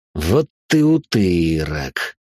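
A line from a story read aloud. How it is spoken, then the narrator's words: Through gritted teeth. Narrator (Russian): процедил сквозь зубы Гордея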